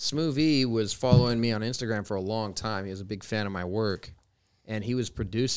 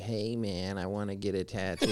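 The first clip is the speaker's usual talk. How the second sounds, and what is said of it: Imitates another person's voice. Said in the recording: “Sorry, Mickey. That's my best impression.”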